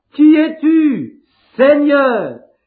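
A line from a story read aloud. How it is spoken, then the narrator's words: Exclaimed. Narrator (French): il s'écria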